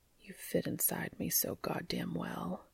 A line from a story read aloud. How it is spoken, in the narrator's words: he whispered, said Cas